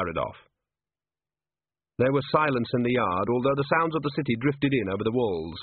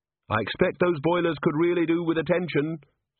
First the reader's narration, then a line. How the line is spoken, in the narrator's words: said Angua sharply